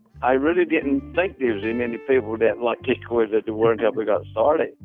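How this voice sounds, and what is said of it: Coastal North Carolina accent. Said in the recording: “You can hear in his accent that he comes from a long line of coastal North Carolinians.”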